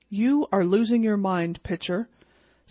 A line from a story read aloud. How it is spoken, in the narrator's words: said Maxwell